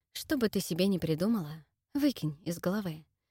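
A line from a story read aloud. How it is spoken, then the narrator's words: Barely audible whisper, drowned out. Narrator (Russian): едва слышно прошептал он, заглушаемый смехом друзей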